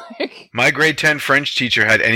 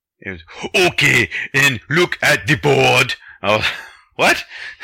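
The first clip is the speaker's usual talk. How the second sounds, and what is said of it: Arnold Schwarzenegger-like teacher voice. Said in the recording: “anything but a teacher voice ... So your French teacher was Arnold Schwarzenegger?”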